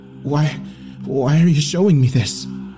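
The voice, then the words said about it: Shaky, frightened voice. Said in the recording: “I asked in a shaky voice.”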